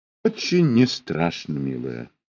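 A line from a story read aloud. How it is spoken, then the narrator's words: Sighing addition. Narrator (Russian): вздохнув, добавила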